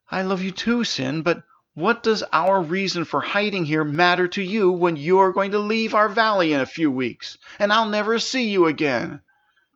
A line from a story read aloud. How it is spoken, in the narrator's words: Princess cried as she began to feel tears well inside her